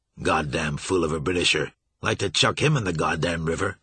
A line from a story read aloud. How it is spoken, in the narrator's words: He grunted with surprise … muttering under his breath